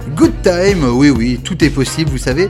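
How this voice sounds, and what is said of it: Exaggerated French-accented English. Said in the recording (French): “je vais articuler Brazilian Girls avec un bon accent franchouilleur.”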